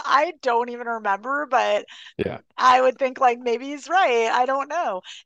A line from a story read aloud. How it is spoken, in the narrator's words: Neil's laughing, and he goes